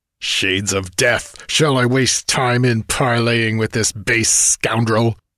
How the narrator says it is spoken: Kane snarled in a voice suddenly bloodthirsting

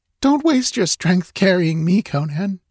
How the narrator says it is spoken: she pleaded

